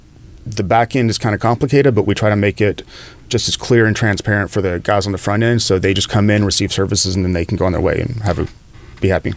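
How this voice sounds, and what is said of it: Slight Southern drawl, Texas twang. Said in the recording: “You have a Southern drawl. You have an accent in there that you're like trying to prevent from getting out. ... a little bit of Southern drawl, a little bit of Texas twang.”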